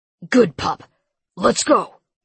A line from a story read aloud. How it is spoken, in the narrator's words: he barked